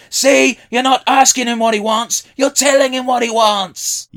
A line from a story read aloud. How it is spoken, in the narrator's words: Herbert screaming